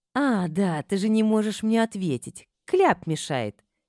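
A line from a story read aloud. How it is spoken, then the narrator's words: Snide, through clenched teeth. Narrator (Russian): ехидно процедила я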